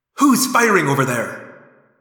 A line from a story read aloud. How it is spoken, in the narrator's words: the visor bellowed